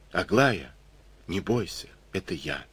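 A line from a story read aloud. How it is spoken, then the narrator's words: Quiet. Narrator (Russian): тихо ответил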